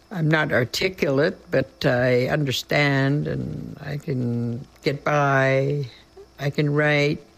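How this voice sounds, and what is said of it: Very strong non-native accent. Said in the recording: “I have a very strong accent”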